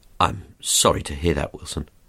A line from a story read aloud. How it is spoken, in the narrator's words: I said